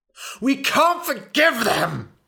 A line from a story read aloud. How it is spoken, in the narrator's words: he screamed